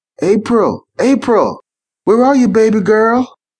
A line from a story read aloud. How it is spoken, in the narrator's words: yelled Bottega